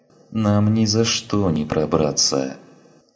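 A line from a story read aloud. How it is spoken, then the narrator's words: Exhausted moan. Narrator (Russian): простонала Калли, в изнеможении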